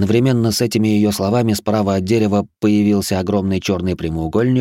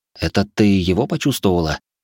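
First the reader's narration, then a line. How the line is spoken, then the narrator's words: Whispered. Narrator (Russian): прошептал я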